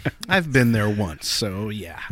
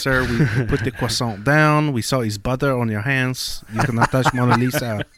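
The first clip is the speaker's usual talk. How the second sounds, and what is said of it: Put-on French accent. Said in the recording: “I love your French accent. That's the best. I've never heard ... do a French accent”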